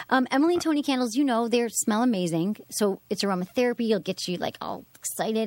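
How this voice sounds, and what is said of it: Strong regional accent. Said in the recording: “you're sounding a lot like Mr. Skin tonight... you guys have your accent... My accent came back?... Big. Yeah.”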